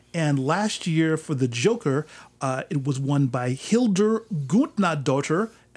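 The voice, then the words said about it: Put-on Icelandic accent on name. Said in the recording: “that's my best Icelandic accent.”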